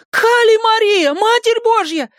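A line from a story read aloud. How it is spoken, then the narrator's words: Wailing scream. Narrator (Russian): завопила Маля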